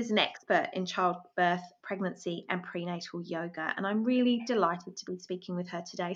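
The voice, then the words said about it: Lovely voice, slight British accent. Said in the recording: “what a lovely speaking voice you have ... Some British accent coming out of me, maybe”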